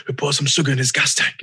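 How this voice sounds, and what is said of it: Imitates another person's accent. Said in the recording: “just with his accent too”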